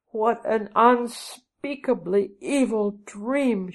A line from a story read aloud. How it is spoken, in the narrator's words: she cried